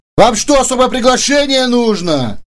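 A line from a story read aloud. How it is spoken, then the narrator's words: Guard shouting in ear. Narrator (Russian): крикнул над самым ухом главный охранник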